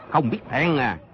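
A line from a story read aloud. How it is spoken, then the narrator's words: Loud shout. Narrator (Vietnamese): quát lớn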